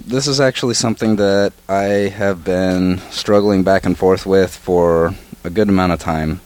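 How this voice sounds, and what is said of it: Hoarse, strained voice. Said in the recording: “forgive my voice. I've been losing it lately.”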